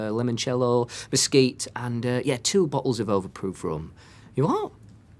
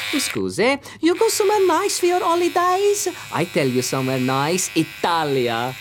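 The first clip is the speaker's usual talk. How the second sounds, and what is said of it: Put-on Italian accent. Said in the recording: “So you're putting on the Italian accent?”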